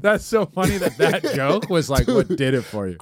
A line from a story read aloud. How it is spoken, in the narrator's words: I laugh about that joke